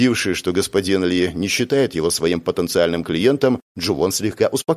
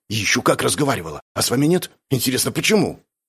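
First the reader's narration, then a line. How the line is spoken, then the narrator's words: Expressive hissing near-whisper. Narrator (Russian): Теперь он говорил почти шепотом, но все равно умудрялся шипеть с максимальной выразительностью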